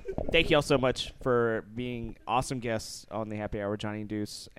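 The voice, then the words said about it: Hoarse, fading voice. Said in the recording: “My voice is going out.”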